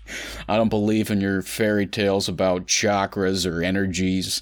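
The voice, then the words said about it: Imitated American accent. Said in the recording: “doing his American accent that I love so much”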